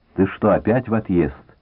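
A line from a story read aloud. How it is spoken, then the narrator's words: Plain. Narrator (Russian): спросил подрывник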